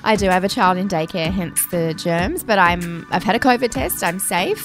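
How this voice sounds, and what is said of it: Husky, hoarse voice. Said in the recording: “has a very sexy voice today ... I'm not sick, I just sound husky”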